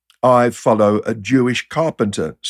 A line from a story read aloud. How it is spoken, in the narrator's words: said one